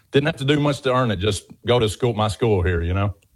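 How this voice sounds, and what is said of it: Southern US accent. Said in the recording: “clearly a Southern gentleman. You have a beautiful accent.”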